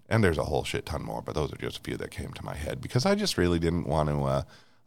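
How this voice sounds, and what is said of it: Slightly raspy, scratchy voice. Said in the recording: “my voice is a little raspy, still not horrible ... my throat was getting scratchy”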